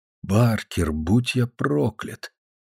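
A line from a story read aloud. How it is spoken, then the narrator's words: Quiet speech. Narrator (Russian): Я негромко произнес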